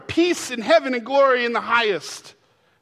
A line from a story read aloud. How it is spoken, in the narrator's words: they screamed